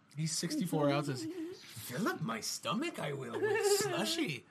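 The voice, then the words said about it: Poor Yoda character voice. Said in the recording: “That's a terrible Yoda impression.”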